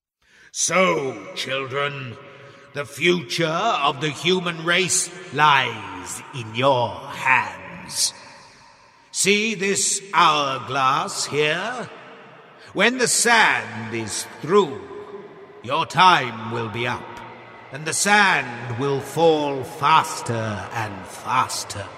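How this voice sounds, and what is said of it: Scary voice. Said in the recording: “scary voice”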